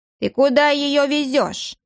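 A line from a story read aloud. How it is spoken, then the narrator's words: Old woman, stern, threatening. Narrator (Russian): проговорила старуха суровым, угрожающим голосом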